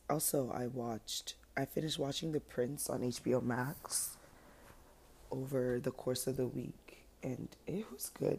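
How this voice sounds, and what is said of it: Slightly weird, groggy voice. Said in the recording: “I just kind of woke up-ish, so my voice is a little, hold on, weird”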